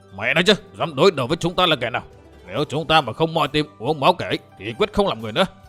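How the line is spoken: Angry roar. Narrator (Vietnamese): Đầu lĩnh đội thuyền thứ hai là Giang Lý Bằng Chữ Bưu giận dữ gầm lên

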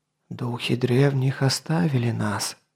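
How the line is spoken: Whisper in ear. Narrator (Russian): прошептал князь Бардигрет на ухо князю Грабрадизу

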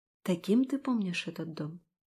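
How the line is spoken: Quiet whisper. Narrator (Russian): тихо шепнула я

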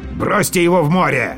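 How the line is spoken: Barking. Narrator (Russian): Грейвс рявкнул

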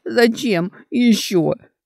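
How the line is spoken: Startled hostile girl, sobbing. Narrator (Russian): От неожиданности враждебно спросила девушка, снова непроизвольно всхлипнув

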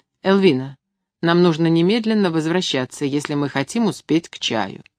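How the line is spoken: Said coldly. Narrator (Russian): Я холодно произнесла

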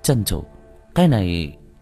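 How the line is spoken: Shocked, hesitant. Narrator (Vietnamese): Thiết Toán Bản nghe xong thì chấn động, ngập ngừng

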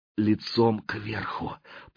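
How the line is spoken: Whisper. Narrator (Russian): прошептал болотник

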